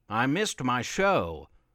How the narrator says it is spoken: Grandpa Fred barked to himself, upset that his afternoon routine was disrupted

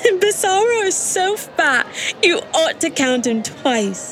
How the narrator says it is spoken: Mercy replied, giggling

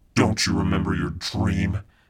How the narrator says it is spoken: she said in a ghastly voice

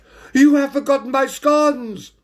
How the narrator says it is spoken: Lady Priscilla Perfect shouted out

